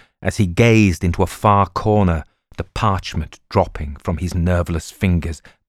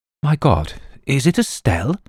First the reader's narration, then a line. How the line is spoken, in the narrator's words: Sir George gasped to himself